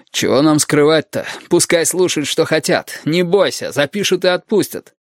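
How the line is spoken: Smirking snort. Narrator (Russian): Мухобой хмыкнул

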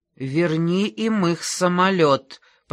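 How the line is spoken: Hissed. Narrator (Russian): прошипел он

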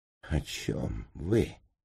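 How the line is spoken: Disbelieving mumble. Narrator (Russian): промямлил я, не в силах поверить собственным ушам

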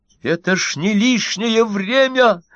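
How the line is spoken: Loud shout. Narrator (Russian): закричал Стендаль на весь сквер

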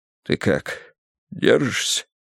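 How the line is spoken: Whispered into neck. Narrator (Russian): шепнул он мне в шею

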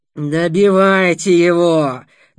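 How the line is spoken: Terrible grating growl. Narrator (Russian): донеслось жуткое, скрежещущее рычание Дугура

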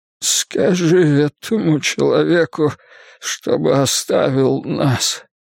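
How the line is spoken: Moaning. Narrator (Russian): простонал Картер

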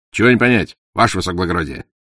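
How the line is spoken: Cheerful answer. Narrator (Russian): бодро отвечал Порох

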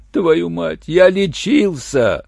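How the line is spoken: Tearful voice. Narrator (Russian): плачущим голосом сказал голодец

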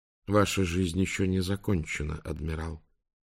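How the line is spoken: Quiet, father. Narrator (Russian): тихо проговорил папа

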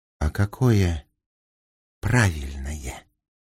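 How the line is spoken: Tender breath. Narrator (Russian): выдохнул он нежно

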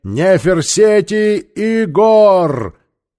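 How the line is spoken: Soldiers shouting. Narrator (Russian): Пешие воины закричали

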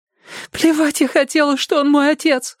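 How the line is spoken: Sobbing. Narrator (Russian): всхлипывала Кэндалл

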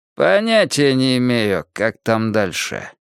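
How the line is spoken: Completely changed voice. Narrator (Russian): совсем другим голосом сказал он

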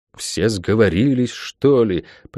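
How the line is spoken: Muttering. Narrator (Russian): пробормотала проклятая

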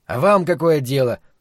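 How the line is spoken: Rude reply. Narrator (Russian): грубо ответил Гарольд

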